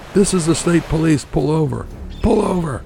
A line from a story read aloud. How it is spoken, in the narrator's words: He yelled through a megaphone